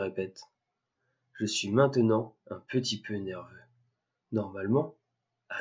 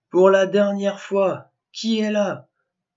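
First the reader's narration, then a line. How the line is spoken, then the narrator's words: Shouting as loud as possible. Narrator (French): crie-je aussi fort que possible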